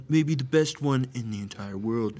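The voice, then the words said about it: Imitates another person's voice. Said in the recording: “you put the hand up and kind of you put your duck lips a little bit... And then you got to get the voice... The best accent I've ever done”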